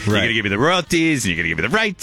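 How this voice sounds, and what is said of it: Put-on New York accent. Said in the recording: “talking in a New York accent”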